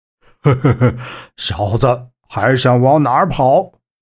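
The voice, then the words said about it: Gruff rough male voice. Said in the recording (Chinese): “粗声粗气的男汉声”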